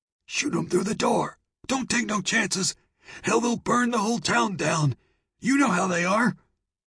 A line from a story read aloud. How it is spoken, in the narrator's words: Carlyle rasped